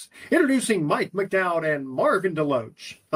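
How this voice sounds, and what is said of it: Announcer-style radio voice. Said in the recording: “give me your best radio voice ... This is my best radio voice ... that sounds pretty good”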